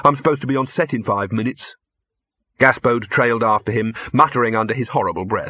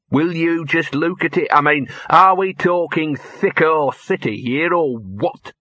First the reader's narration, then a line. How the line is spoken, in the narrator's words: sneered Gaspode